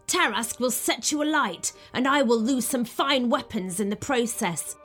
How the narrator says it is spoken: he snapped

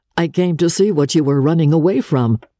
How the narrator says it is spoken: he laughed as he answered

